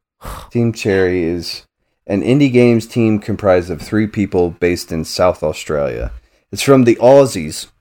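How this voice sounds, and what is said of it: Put-on Australian accent. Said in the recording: “I will never do that accent again. I apologize.”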